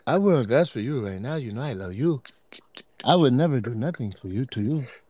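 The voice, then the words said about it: Put-on voice and accent. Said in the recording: “that voice and accent”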